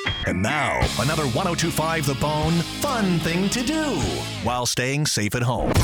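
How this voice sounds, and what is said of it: Usual voice. Nothing is said of it.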